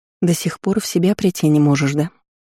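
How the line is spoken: Soft smiling whisper. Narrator (Russian): Тихо шепнула Леонесса, улыбаясь

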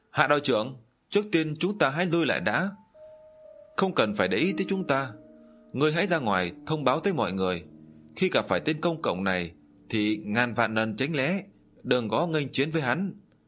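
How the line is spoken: Alarmed shouting. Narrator (Vietnamese): biết công cộng Chi Linh lợi hại cho nên lại hét lên

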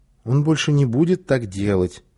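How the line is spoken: Uncertain, hesitant mother. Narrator (Russian): неуверенно сказала мама

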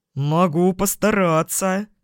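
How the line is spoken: Eager growl. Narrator (Russian): с готовностью прорычал демон

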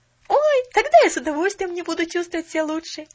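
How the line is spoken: Exclaim. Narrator (Russian): воскликнула Поллианна

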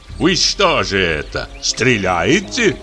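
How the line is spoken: Mocking voice. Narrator (Russian): говорит поляк насмешливым голосом

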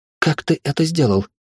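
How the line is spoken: Whisper. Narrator (Russian): прошептала

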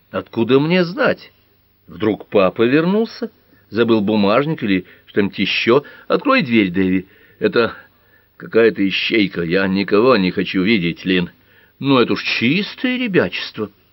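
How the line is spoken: Calm objection. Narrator (Russian): спокойно возразила Линда

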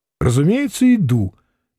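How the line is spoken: Cheerful reply. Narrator (Russian): весело ответил Самгин

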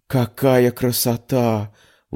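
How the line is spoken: Breathless girl. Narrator (Russian): выдохнула девушка

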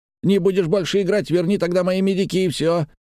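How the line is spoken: Shouting. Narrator (Russian): закричал он

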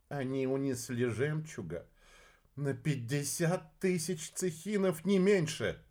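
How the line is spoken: Sigh, policeman. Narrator (Russian): вздохнул полицейский

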